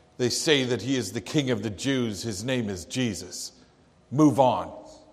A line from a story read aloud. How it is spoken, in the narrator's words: a soldier gruffly replied